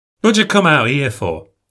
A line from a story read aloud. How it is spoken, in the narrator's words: I blurt out